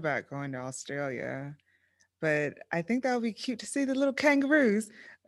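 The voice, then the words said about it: Poor attempt at Australian accent. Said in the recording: “That's not a Aussie... that's not an Australian accent at all.”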